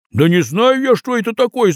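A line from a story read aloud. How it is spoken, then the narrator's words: Shouted. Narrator (Russian): закричал Тимоха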